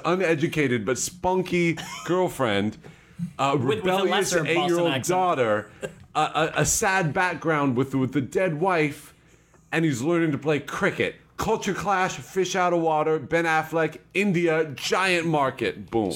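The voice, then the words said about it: Put-on Boston accent. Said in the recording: “you pitched in a Boston accent ... It would still not be a Boston accent.”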